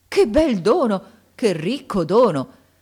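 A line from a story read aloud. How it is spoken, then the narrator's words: Joyful exclamation. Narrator (Italian): esclamando con un trasporto di gioia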